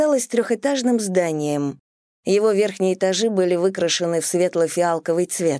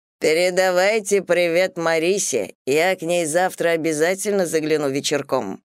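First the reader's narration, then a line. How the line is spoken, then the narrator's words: Good-natured deep farewell. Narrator (Russian): Возница наш, все так же добродушно улыбаясь, на прощание пробасил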